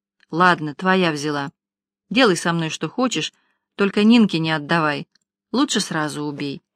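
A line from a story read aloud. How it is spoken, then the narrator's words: Breathless hunted mutter. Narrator (Russian): тяжело дыша, беглянка затравленно пробормотала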